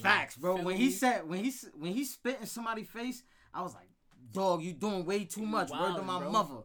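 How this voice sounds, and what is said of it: Put-on Brooklyn accent. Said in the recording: “can we talk in our Brooklyn accents?”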